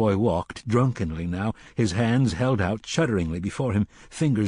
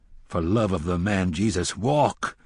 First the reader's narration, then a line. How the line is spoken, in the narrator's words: the gunslinger said roughly